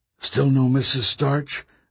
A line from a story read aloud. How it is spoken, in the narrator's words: Nick whispered to Marta